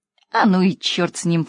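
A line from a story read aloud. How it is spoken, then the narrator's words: Girl snorting. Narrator (Russian): фыркнула девочка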